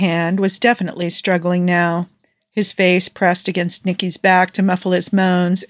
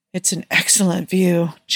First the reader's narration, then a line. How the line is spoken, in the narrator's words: Joe breathed